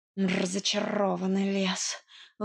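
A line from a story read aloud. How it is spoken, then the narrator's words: Breathless exhale. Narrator (Russian): выдохнул запыхавшийся кот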